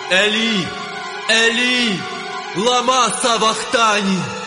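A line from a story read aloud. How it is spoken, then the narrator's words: Loud cry. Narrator (Ukrainian): скрикнув Ісус гучним голосом, кажучи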